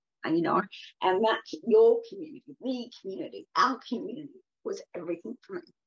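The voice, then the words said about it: Teary, emotional voice. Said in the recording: “Sorry, I'm getting teary.”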